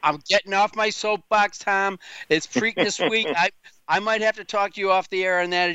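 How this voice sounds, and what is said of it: Fired-up, worked-up voice. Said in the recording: “As you can hear in my voice, I'm fired up about it”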